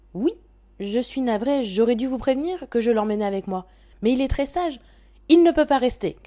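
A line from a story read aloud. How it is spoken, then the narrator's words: Shouted. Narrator (French): cria Madame Bosse-Dure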